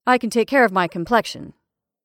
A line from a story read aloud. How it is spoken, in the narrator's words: said Henderson firmly